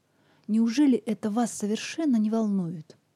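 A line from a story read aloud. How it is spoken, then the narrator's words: Exclaiming, losing composure. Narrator (Russian): воскликнул Сэнди, потеряв самообладание от черствости Грейсона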